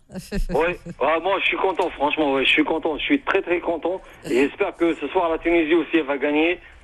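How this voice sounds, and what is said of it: Northern French accent. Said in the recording (French): “t'as l'accent du Nord ... j'ai l'accent du Nord”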